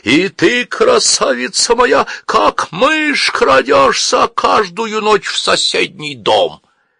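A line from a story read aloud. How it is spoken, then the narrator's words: Passionate singing. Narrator (Russian): уже третий певец страстно подхватил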